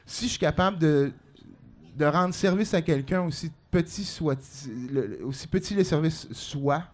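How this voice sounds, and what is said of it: Quebec French Outaouais accent, English-tinged. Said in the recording (French): “l'accent d'Outaouais ... le vieil accent des vieilles Outaouais ... espèce d'accent anglais dans le français”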